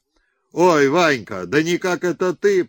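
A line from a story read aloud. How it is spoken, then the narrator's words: Booming burly cossack. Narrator (Russian): прогудел здоровенный казак Брусов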